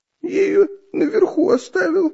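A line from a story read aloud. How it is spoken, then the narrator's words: Frightened babble. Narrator (Russian): пролепетал испуганно Дырка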